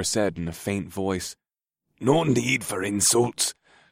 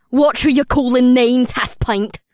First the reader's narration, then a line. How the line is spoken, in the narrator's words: Amrila spat at the dwarf called Doram